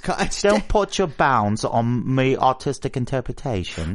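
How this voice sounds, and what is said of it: Good put-on Cockney accent. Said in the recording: “It's just a really good Cockney accent. ... you should start doing some British voiceover”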